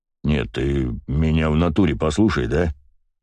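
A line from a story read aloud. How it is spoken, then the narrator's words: Deep bass voice. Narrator (Russian): пробасил Коврига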